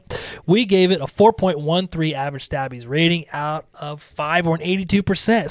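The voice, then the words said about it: Strained, fading voice, talking fast. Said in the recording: “I'm trying to see how fast I can talk as I'm losing my voice”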